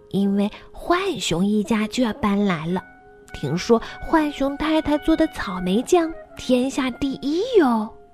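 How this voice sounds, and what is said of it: Small, tiny character voice. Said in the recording (Chinese): “那个小小的声音说”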